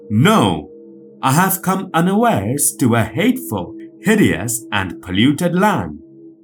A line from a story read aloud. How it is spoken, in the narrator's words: So greatly was Izanagi shocked that he exclaimed